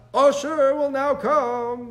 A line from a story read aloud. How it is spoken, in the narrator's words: the high priest called out